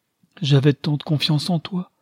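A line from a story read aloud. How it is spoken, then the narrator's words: Choked voice. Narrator (French): reprit Madame de Rias d'une voix suffoquée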